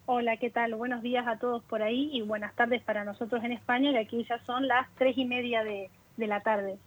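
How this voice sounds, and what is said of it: Speaks with her original native accent. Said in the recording (Spanish): “Qué bueno escuchar que seguís teniendo el mismo acento”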